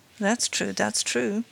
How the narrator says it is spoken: muttered the magistrate, who was obviously interested

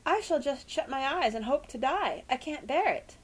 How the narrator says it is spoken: quavered Tess

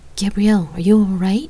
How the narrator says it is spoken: I asked nervously

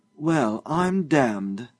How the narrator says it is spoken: Josiah exclaimed

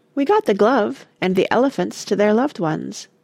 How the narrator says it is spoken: Joe said, in a determinedly cheerful voice

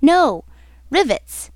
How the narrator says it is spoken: exclaiming

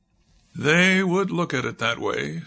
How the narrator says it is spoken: sighed Main

